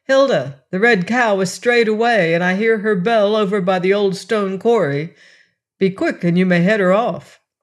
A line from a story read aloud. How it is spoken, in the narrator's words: her stepmother called out